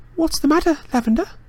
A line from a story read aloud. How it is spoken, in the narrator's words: said Hermione anxiously